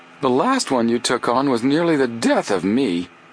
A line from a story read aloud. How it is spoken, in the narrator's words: Chet grumbled